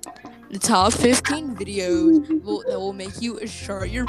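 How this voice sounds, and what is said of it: Impression of YouTuber Chills. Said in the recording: “I can do a great Chills impression ... do that YouTuber voice”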